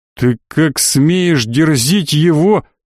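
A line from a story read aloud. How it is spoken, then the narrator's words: Deep booming rumble. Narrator (Russian): утробно прогудел боевой монах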